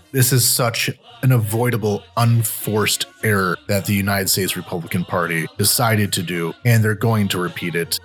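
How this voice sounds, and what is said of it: Frustrated, exasperated tone. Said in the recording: “As you can probably tell in my voice, I have a lot of frustration covering this.”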